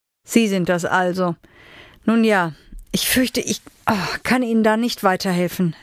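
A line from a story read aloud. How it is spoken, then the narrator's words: Said with a groan. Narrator (German): sagte und stöhnte auf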